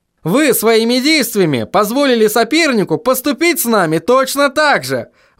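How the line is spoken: Exclamation. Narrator (Russian): воскликнул он

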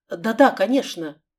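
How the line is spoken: Flustered babbling. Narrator (Russian): пролепетала Лиля

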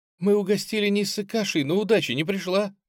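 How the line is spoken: Sobbing. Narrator (Russian): всхлипнула Мари

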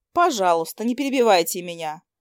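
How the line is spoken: Sighed. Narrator (Russian): вздохнула она

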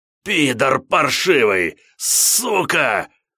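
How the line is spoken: Hissing from the ground. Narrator (Russian): шипение распластанного по земле недавнего оппонента

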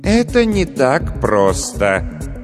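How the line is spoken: Sighing again. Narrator (Russian): тот, который повторно вздохнул

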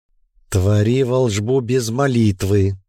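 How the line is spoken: Hissing. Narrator (Russian): зашипела Ирма

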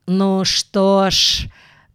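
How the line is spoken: Very solemn voice. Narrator (Russian): проговорил Ронни Обыграйт очень торжественным голосом

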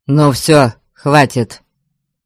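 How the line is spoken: Offended bark. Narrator (Russian): рявкнул Гарольд, явно обидевшись на мой никак не унимающийся смех

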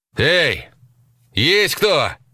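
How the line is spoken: Shout drowned by wind. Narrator (Russian): крикнул, и его голос безнадежно утонул в завывании ветра

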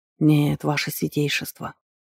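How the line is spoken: Mumbled. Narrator (Russian): пробормотал Квок

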